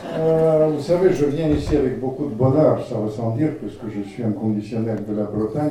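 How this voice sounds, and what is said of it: Speaks with a noticeable accent. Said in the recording (French): “je suis désolé pour mon accent”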